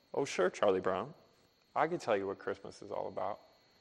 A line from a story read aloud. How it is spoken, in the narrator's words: even-keeled, level-headed Linus calmly replies